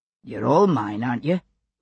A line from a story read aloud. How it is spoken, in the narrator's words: Buck said gruffly